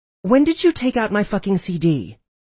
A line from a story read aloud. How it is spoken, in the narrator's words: Mel snapped at me